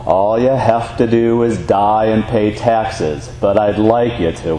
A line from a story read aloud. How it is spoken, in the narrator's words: the teacher dryly responded